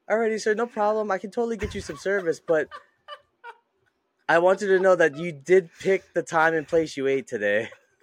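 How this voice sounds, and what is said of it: Passive-aggressive customer service voice. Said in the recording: “I'm passive aggressive when I'm doing customer service voice”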